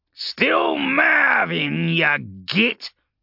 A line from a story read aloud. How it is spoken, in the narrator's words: Urgulk snarled, his dark mood returning